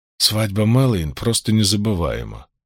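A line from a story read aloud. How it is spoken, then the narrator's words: Speaking over grumbling. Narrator (Russian): Чтобы заглушить ее ворчание, Ранд сказал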